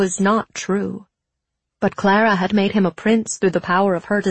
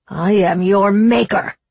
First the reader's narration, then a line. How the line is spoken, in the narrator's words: snarled the clocksmith